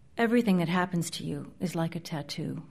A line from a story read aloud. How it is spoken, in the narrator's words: Grace says quietly